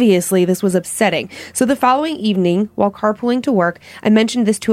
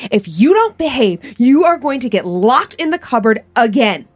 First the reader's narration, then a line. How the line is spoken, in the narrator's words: Tanya's voice yelling